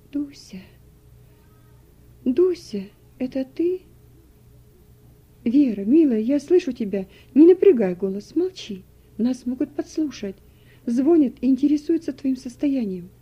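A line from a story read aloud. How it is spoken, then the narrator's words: Weak quiet voice. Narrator (Russian): Вера бессильным голосом произнесла тихо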